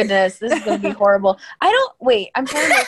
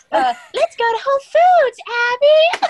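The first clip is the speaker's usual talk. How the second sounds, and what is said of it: Imitates a cartoon character's voice. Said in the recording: “your best Bingo Bronson impersonation ... It's like you played the episode”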